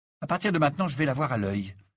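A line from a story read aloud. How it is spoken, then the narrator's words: Determined announcement. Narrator (French): annonça-t'il d'un ton décidé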